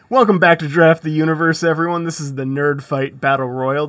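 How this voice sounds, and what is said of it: Exaggerated radio announcer voice. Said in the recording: “You are leaning into that radio voice right now, huh?”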